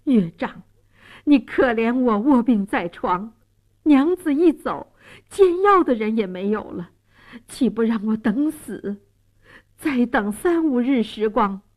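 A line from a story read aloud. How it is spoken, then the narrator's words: Earnest pleading. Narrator (Chinese): 蒋世龙苦苦哀求说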